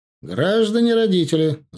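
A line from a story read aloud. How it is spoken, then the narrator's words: Shouted. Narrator (Russian): закричал я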